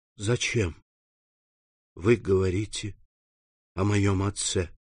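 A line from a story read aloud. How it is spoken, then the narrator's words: Whispered. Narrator (Russian): прошептал он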